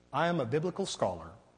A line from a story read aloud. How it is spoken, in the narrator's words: he replied